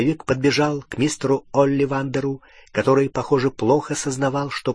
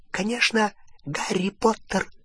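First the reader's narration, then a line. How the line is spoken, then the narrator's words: Whisper. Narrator (Russian): прошептал Добби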